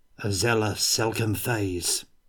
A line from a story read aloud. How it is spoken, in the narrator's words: muttered Yori